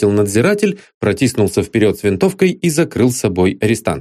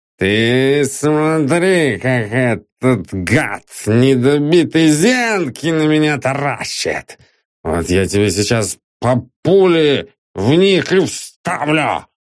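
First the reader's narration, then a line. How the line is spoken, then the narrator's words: Menacing hiss. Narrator (Russian): прошипел матрос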